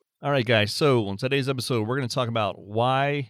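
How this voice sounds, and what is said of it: Usual voice. Nothing is said of it.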